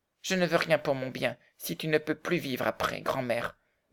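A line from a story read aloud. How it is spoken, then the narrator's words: Very determined child. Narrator (French): déclara Heidi d'un ton très décidé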